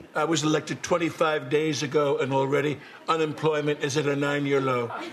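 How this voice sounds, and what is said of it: Imitates another person's voice. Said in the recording (Norwegian): “Alec Baldwins parodier på Donald Trump fra Saturday Night Live”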